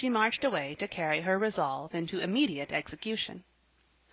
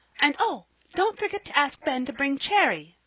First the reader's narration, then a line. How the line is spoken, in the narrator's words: cried Polly, the last minute as they were driving off